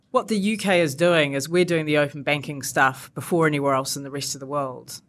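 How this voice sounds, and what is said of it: Non-British accent. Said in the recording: “evidently from my accent, I wasn't brought up here”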